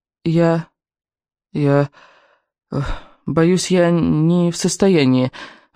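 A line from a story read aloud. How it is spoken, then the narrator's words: Strained. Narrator (Russian): выдавила я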